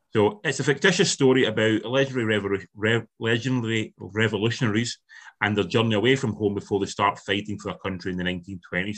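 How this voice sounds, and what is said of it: Scottish Ayrshire accent, rolled R's. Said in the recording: “I've got a Scottish accent ... someone with an Ayrshire accent ... Who rolls at R's”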